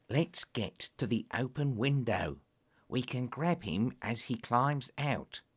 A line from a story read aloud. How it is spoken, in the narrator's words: Lestrade whispered